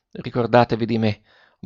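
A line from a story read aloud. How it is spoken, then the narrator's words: Breathy whispered murmur. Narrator (Italian): mormorò ancora il ragazzo con una voce che pareva un soffio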